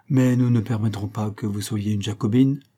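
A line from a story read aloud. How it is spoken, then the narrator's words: Plain. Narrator (French): répondit Helstone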